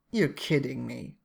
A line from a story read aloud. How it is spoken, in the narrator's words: she says dryly